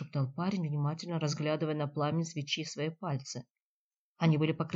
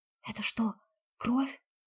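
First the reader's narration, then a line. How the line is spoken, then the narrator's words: Whispered question. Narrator (Russian): тоже шепотом спросила Климова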